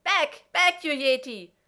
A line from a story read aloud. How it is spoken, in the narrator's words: high-pitched shriek, McKay shouting